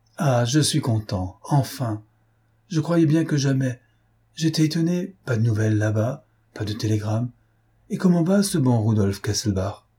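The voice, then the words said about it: Speaking French with a bad accent. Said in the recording (French): “avec un mauvais accent”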